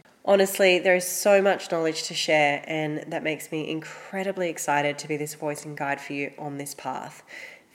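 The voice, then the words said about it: Congested, slightly off voice. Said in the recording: “As you can probably hear, my voice is a little bit off this week... forgive my congestion”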